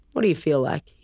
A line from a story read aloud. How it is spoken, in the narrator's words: he asked